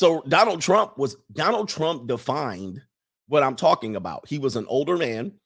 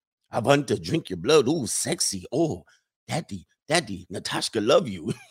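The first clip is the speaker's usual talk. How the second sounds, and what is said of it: Dracula-style Eastern European accent. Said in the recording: “why do my Eastern European accent sound like Dracula? ... Eastern European women all sound like Dracula to you ... just do a Dracula ask, accent.”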